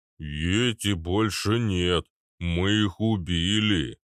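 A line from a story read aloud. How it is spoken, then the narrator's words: Booming drone. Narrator (Russian): прогудел Арнольд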